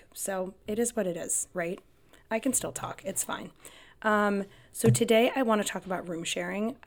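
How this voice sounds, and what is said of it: Raspy, sick-sounding voice. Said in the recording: “my voice is like... sick, and so she has like this raspy voice... I'm like that right now... I lost my voice... I'm actually just sick”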